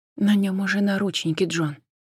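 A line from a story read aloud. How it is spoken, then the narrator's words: Quiet. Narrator (Russian): тихо проговорила Джен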